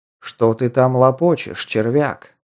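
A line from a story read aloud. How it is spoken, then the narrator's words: Deep bass voice. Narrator (Russian): пробасил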